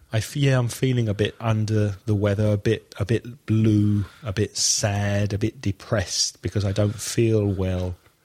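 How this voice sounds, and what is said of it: Congested voice with a cold. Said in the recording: “I've got a bit of a cold, so I'm feeling a bit blocked up ... he has had a bit of a sore throat.”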